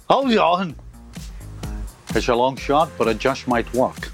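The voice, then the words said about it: Sean Connery impression. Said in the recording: “does a mean Sean Connery impression.”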